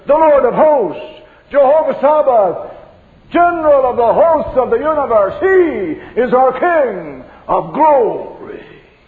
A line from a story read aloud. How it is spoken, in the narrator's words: the answer thunders